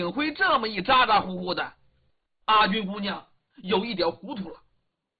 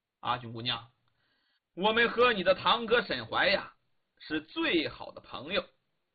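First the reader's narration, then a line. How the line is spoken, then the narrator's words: Smiling. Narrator (Chinese): 李元芳微笑着把这个话头接过来了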